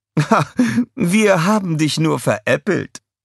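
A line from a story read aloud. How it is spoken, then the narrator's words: Laughing. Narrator (German): die Königin lachte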